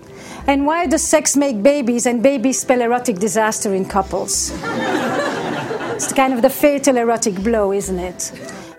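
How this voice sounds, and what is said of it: French accent. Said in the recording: “She has a French accent.”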